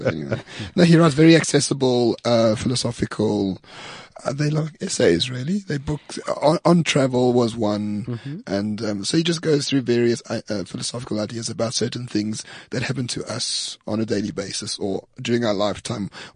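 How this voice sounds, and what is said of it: French accent. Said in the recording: “Oh, I love the French accent.”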